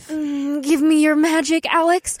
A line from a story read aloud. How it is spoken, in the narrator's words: Una moaned